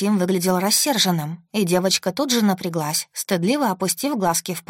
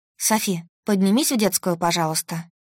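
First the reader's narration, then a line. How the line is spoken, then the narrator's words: Calm. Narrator (Russian): сказала я спокойно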